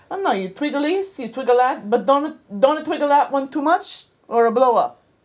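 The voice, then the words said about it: Deliberately bad Italian accent. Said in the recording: “he was Italian, and I'm going to do a very bad Italian accent.”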